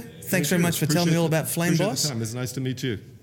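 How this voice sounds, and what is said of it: Noticeable accent. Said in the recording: “I love the accent.”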